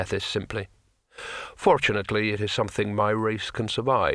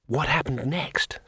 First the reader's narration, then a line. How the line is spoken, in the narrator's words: said Two Flower breathlessly